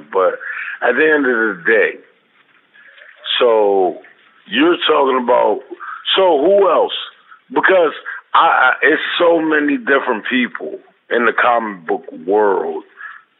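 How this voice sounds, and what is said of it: Raspy voice. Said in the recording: “my voice is kind of raspy right now”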